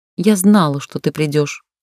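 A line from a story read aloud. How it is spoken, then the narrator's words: Plain. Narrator (Russian): сказала распорядительница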